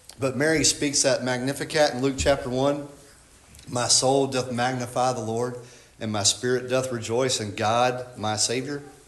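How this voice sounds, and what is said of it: Southern American accent. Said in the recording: “in my southern and foolish dialect”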